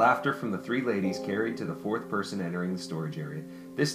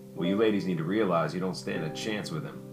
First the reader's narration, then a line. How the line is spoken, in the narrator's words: Vincent blandly stated